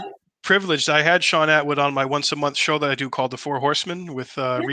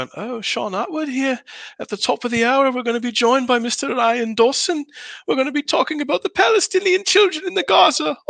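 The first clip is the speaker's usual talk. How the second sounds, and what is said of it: Imitates another person's voice. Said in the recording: “I did my impression for him”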